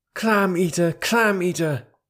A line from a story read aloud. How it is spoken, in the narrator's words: Kotick shouted as loud as he could